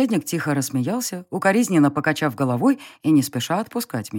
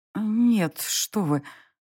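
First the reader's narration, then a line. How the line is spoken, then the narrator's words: Frightened breathless denial. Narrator (Russian): выдохнула я, но вид у меня был слишком испуганным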